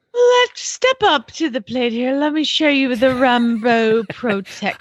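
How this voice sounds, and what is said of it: Put-on British accent. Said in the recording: “my British accent ... it's so yes, on point. So good.”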